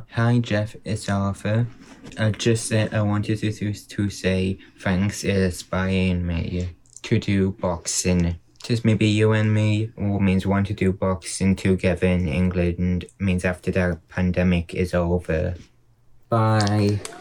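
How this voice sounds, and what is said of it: Child with an English accent. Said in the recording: “I love his accent. ... they have the best accent.”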